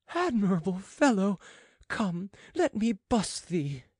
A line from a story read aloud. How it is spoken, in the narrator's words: exclaimed the royal favorite